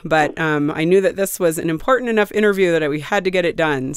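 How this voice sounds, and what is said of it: Sick-sounding voice. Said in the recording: “you can tell from my voice I'm a little bit sick”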